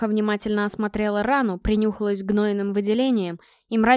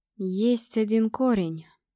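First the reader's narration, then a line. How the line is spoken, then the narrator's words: Slow speech. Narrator (Russian): медленно произнесла Горха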